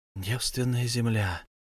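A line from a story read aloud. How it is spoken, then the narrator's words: Whisper. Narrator (Russian): она прошептала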